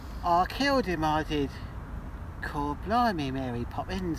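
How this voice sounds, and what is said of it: Put-on traditional British accent. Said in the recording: “the traditional British accent”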